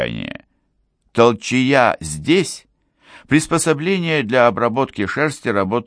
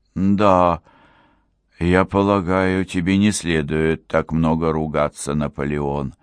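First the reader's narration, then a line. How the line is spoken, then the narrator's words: Quiet speech. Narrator (Russian): тихо проговорил Энок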